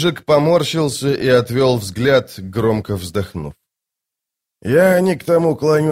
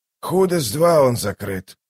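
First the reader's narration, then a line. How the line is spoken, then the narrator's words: Hoarse wheeze. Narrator (Russian): прохрипел Дуджик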